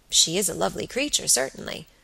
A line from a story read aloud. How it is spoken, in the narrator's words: murmured Robert, with placid admiration